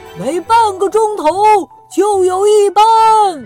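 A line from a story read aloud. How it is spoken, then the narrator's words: Sailor shouting. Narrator (Chinese): 一位水手对着他喊着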